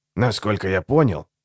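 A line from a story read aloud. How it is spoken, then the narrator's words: Grumbling. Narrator (Russian): проворчал Высогота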